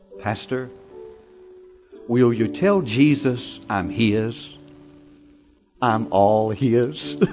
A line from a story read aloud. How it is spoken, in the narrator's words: she said in a beautiful, sweet, soft voice